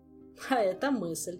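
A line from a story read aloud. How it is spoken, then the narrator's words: Said after laughing. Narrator (Russian): сказал его величество, отсмеявшись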